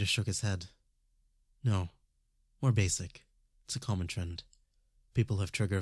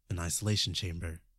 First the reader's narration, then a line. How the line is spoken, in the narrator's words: Justin asked